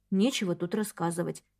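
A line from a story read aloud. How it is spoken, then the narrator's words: Quiet. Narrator (Russian): тихо ответила она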